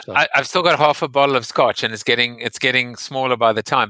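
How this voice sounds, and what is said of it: Speaker's own accent. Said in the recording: “I like your accent so much.”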